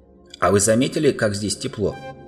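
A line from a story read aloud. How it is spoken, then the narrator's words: Plain. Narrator (Russian): сказал Грюм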